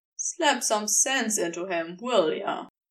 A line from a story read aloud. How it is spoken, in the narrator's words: Aziraphale sighed